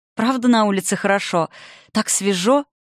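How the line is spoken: Blissful question. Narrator (Russian): блаженным голосом поинтересовалась у подруг Заня

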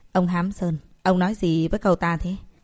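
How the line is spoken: Cold question. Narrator (Vietnamese): Tổng chấp sự Thông lạnh lùng hỏi

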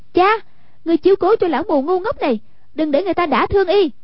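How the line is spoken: Sharp shout. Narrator (Vietnamese): Hoàng Dung quát

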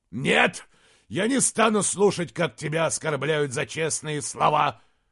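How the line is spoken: Roaring. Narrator (Russian): взревел Изгримнур

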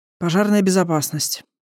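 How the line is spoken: Sigh. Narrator (Russian): вздохнул Индан

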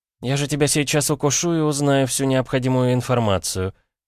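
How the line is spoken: Sweet angelic voice. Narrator (Russian): ангельским голоском произнесла вампирша, которой надоело играть в словесные игры

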